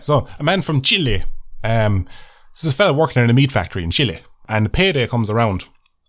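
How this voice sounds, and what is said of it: Speaks with a regional accent. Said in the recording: “it's part of the accent ... Making fun of my accent”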